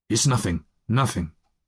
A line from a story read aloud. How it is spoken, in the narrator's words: he muttered hastily